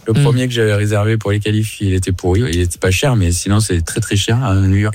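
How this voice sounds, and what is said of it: Southern French Carpentras accent. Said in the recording (French): “ce petit accent ... accent de Carpentras”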